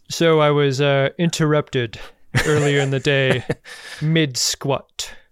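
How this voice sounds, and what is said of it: Imitates another person's voice. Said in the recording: “my very terrible Picard impression ... That's pretty good.”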